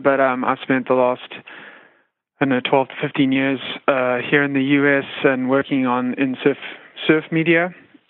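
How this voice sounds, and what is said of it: South African accent. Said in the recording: “I have a funny accent and I'm not originally from the United States. I'm originally from South Africa”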